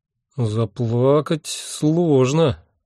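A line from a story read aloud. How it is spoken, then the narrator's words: Uncertain drawl. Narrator (Russian): неуверенно протянул я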